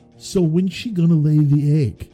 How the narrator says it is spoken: shout

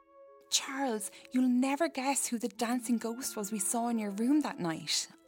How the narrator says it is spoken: I exclaimed excitedly

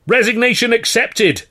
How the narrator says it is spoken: Carno yelled

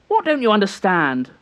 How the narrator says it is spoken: Bidwell was raising his voice now, not to reprimand, but to fire the boy up

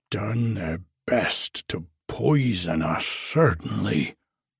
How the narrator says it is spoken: growled the old gentleman

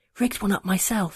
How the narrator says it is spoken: he whispered, though we were alone

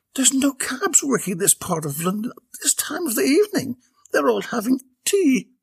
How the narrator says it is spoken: Belinda repeated hesitantly

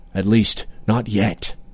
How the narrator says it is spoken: he murmured

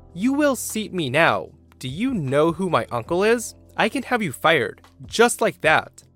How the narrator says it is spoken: my niece say rather loudly

